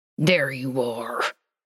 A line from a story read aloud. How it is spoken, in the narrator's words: Dean said through gritted teeth